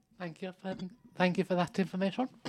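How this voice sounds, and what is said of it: Posh British accent. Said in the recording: “I don't know why I'm talking posh,”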